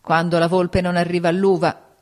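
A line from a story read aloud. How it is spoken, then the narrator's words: Old maid shouting. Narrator (Italian): gridava la zitellona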